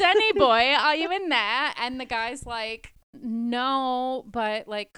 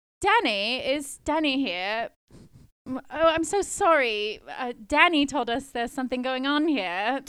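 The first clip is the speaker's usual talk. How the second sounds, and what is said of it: Put-on British accent. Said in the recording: “I put on a British accent”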